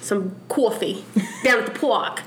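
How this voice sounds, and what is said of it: Tough-guy New York accent. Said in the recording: “People really have that accent. ... It's like a tough guy. ... she sums up the New York accent”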